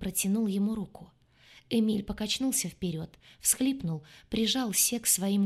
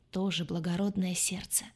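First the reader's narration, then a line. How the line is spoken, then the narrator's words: Muttering. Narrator (Russian): пробормотал Пантелеоне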